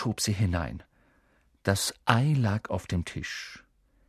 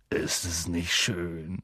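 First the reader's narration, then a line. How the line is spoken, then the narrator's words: Murmured. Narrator (German): murmelte Hagrid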